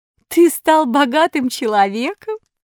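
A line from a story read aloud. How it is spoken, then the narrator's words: Ringing laugh, fox. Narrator (Russian): сказала лисица и звонко рассмеялась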